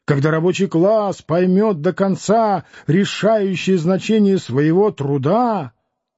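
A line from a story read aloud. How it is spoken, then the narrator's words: Loud preaching. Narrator (Russian): Один из них громко проповедует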